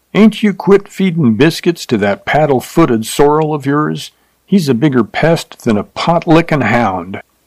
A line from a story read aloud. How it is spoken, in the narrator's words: Cooney hollered at him